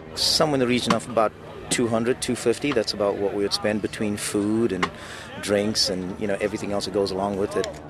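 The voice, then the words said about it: South African accent. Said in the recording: “accent ... He's a native of South Africa”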